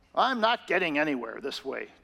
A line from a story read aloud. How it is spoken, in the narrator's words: David grumbled to himself